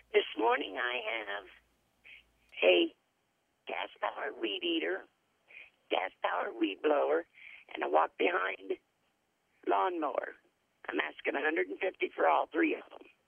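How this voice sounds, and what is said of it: Scratchy hoarse voice. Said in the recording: “My voice is a little scratched. ... I can hear that.”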